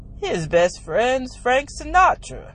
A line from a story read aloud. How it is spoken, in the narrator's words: my father said with a sneer